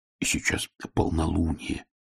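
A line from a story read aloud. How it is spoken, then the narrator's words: Whisper. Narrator (Russian): шепнул Фред Шнобби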